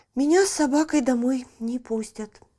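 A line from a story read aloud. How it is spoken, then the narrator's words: Sorrowful sigh. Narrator (Russian): горестно вздохнула она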